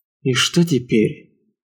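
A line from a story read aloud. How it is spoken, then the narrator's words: Mutter. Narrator (Russian): пробормотал Лейфон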